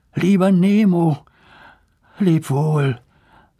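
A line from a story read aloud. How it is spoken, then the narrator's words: Sad speech. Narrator (German): sagte Lars traurig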